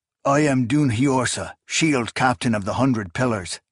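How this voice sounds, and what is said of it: Thick foreign accent. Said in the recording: “spoke to the ground in a thick Galeoth accent”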